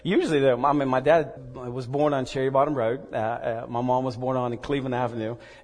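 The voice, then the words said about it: Mixed American accent. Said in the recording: “my accent's a little mixed up ... you don't sound like you're my son ... the Scottish guy's preaching today”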